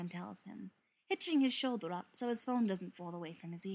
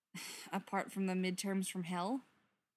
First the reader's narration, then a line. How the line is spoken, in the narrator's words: Joe says with a sigh